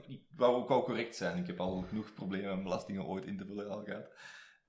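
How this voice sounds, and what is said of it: Heavy French-speaker accent in Dutch. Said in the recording (Dutch): “Mijn zwaar Franstalig accent”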